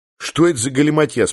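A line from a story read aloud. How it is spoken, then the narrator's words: Plain. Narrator (Russian): спросил я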